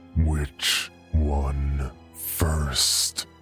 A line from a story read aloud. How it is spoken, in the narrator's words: growls